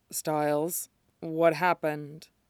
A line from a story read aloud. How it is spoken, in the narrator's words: he asks, mumbling the question into Styles' hair